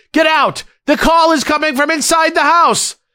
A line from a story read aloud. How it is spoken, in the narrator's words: the operator called panicked and screaming